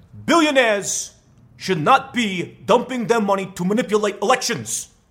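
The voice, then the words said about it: Imitates a politician's voice. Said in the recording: “my best Bernie Sanders impression”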